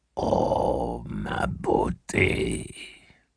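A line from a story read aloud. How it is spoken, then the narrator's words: Whispered. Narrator (French): murmura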